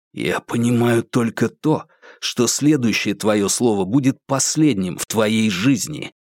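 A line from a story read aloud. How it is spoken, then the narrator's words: Menacing hiss into ear. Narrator (Russian): прошипел Курц ему прямо в ухо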